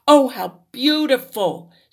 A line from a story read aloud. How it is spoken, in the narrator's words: exclaimed